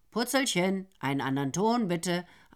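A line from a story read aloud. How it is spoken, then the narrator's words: Plain. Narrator (German): antwortete Nero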